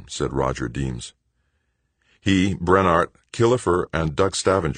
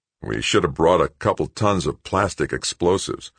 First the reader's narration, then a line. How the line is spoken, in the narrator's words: one of the tractor operators grumbled